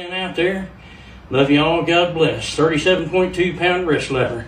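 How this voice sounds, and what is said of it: Pennsylvania, New Jersey, Southern mixed accent. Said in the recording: “He's got like a mix. Like he's got the Pennsylvania, almost New Jersey style. ... he's got the Southern stuff too.”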